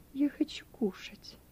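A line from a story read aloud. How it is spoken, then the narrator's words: Quiet, working up courage. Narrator (Russian): Пепс набрался мужества и тихо сказал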